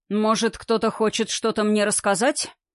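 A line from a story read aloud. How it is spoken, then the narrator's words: Stern question. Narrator (Russian): спросил грозно Сильвестр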